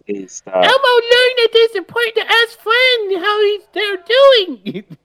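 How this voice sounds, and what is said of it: Elmo character voice. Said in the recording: “do the voice ... doing it in voice”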